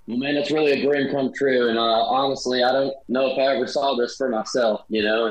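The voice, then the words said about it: Southern American accent. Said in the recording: “I'm so glad that you are staying authentic to that Southern accent. And I hope you never lose it”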